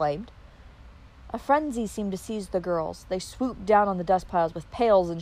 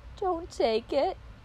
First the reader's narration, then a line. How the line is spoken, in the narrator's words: she pleaded